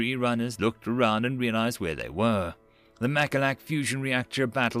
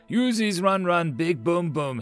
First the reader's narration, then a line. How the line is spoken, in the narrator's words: he yelled, switching to street speak